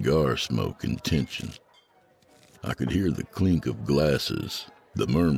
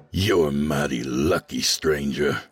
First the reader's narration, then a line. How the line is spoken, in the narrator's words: Hank growled